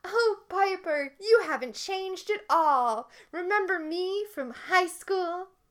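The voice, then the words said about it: Impression of mean-girl TV producer. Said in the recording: “It's dead on impersonation”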